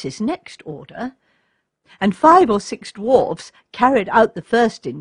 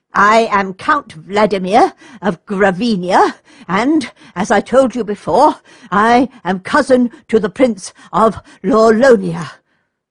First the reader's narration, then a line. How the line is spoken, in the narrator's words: gasped the furious noble